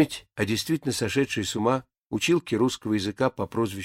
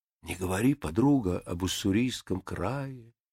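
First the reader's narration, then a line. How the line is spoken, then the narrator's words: Gentle hinting near-whisper. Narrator (Russian): вежливо, я бы сказал, даже ласково, задушевно, как бы намекая на что-то, и почти шепотом произносили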